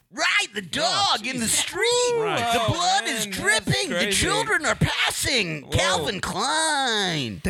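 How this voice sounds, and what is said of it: Classic announcer radio voice. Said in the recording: “That is a classic radio voice too”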